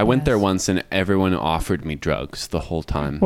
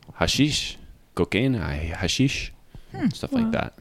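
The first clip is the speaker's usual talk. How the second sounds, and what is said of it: Put-on Portuguese accent. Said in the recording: “Is that a faithful adaptation of their accent? ... Yes.”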